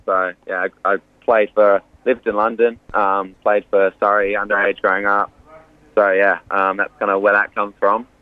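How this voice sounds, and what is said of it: Slight English accent. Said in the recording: “a few people might hear the English accent ... I've got a little English twang. I know it comes and goes.”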